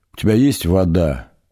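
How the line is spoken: Dry, strained croak. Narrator (Russian): Выдавил он из пересохшего горла

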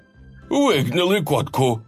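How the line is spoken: Joyful exclamation. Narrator (Russian): радостно воскликнул лавочник

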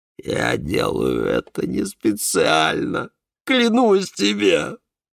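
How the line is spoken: Moaning. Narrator (Russian): простонал Давид

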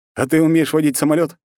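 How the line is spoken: Snorting. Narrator (Russian): хмыкнул

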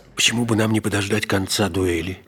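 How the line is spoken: Quiet. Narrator (Russian): тихо спросил его Атос

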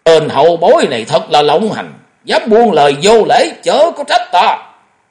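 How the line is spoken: Furious loud shout. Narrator (Vietnamese): Để Mổ Mổ hầm hầm quát lớn

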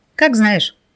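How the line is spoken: Snort. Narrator (Russian): хмыкнул рассказчик

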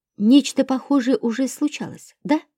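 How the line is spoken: Plain. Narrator (Russian): спросила я

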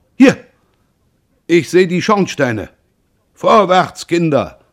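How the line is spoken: Call. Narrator (German): rief Bouzire

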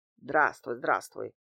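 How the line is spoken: Displeased mutter. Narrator (Russian): пробормотал Дмитрий Иванович недовольным тоном

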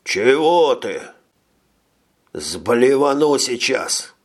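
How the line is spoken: Gloomy promise. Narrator (Russian): мрачно пообещал

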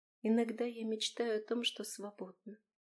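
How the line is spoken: Quiet. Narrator (Russian): тихо проговорила Таира

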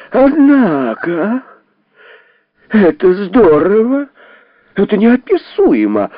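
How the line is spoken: Exclamation, woman's voice. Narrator (Russian): воскликнул юноша, оказавшийся женщиной

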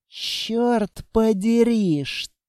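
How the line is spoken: Barely audible whisper. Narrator (Russian): Строгов прошептал еле слышно

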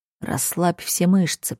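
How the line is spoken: Quiet request. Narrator (Russian): просит тихо

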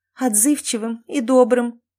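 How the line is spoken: Speaking through sobs. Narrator (Russian): сквозь всхлипывание произнесла Кэти

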